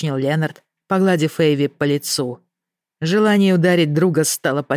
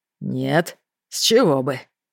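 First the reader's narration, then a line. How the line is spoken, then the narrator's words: Growl through teeth. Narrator (Russian): прорычал сквозь зубы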